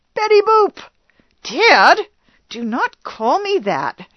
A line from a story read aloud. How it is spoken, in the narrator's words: cried